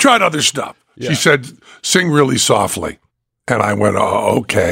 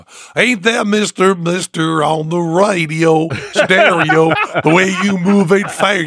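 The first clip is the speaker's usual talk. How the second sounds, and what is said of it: Put-on Southern accent, singing. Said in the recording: “do a Southern accent.”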